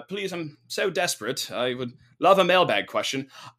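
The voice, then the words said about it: Bad put-on British accent. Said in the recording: “I don't know why I'm doing a bad British accent”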